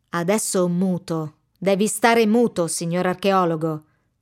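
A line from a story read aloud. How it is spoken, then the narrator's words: Man's menacing voice. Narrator (Italian): dice l'uomo con voce minacciosa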